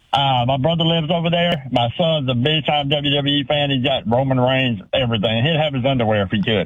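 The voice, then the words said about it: Southern US (Georgia) accent. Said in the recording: “I love your accent ... I'm from Leesburg, Georgia.”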